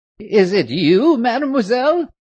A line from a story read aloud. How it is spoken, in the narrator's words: she exclaimed in great surprise